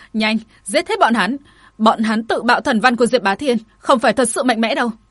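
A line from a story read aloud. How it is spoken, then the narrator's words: Alarmed furious roar. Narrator (Vietnamese): Minh Hòa đã cảm nhận được có điều không đúng, nàng ta bạo hống hét lên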